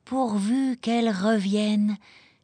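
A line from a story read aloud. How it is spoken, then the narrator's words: Grandmother sighing. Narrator (French): soupira la grand-mère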